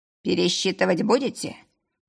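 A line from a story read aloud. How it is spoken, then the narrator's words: Creaky voice. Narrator (Russian): проскрипел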